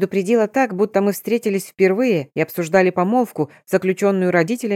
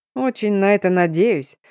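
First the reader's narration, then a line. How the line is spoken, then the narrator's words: Chuckling general. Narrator (Russian): хохотнул генерал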